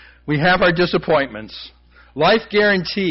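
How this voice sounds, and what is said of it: Usual voice. Nothing is said of it.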